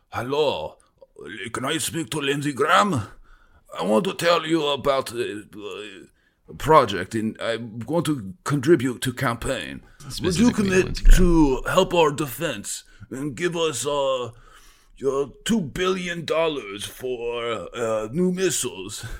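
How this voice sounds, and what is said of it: Weird put-on accent. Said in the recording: “You put on a weird accent.”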